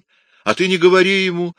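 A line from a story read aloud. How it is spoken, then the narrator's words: Laughing. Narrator (Russian): рассмеялся Микеланджело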